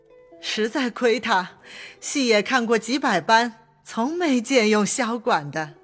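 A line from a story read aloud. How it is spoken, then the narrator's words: Sly sneering laugh. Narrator (Chinese): 薛姨妈阴笑道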